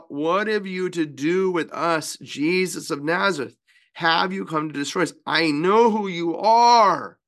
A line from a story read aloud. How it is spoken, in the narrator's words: he cried out